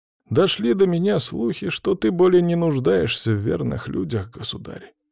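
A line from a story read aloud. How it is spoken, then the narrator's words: Sad sigh. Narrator (Russian): князь грустно вздохнул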